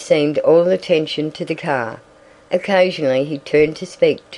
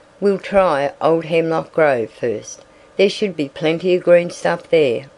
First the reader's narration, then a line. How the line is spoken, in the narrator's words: replied Ned